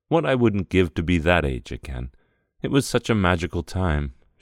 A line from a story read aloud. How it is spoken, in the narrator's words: she sighed